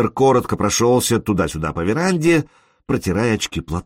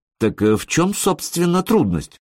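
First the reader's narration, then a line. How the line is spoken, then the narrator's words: Uncertain question. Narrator (Russian): спросил он неуверенно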